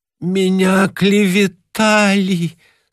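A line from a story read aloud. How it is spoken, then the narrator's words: Moaning. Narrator (Russian): стонал Кулич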